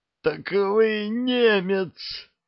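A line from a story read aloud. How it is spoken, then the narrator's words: Pained groan. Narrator (Russian): простонал Лазовский, болезненно морщась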